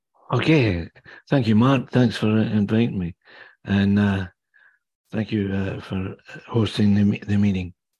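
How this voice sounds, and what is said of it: Scottish accent. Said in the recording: “The accent you hear is not Canadian, obviously. I was born and raised in the Kingdom of Fife on the east coast of Scotland.”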